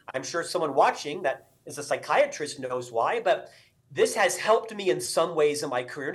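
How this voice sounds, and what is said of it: Loud, fast speaking voice. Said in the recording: “I talk loud. I talk fast. ... my voice level is typically right up here. This is a natural resting voice level for myself ... I always have to talk this loud and I have to be the loudest in the room”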